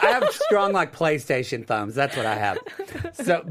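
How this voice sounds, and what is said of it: Usual voice. Nothing is said of it.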